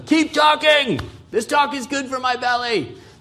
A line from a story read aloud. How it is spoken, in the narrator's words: yell, and they'll say